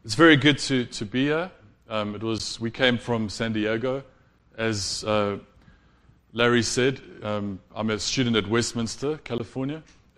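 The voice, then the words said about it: South African accent. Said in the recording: “I'm from South Africa. Hopefully you'll understand everything that I'm saying with my accent. It is quite different”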